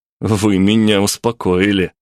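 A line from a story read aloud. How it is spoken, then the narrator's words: Snorting. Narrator (Russian): фыркнул я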